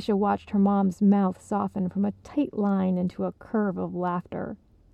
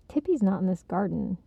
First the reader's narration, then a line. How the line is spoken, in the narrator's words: she told her grandma with a sigh